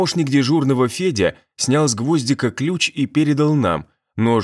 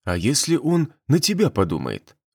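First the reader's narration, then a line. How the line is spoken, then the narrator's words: Whisper. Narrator (Russian): шепнул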